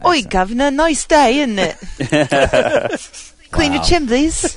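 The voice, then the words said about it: Exaggerated put-on British accent. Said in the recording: “my new accent ... Your pretentious Madonna-esque accent ... It's like listening to the BBC”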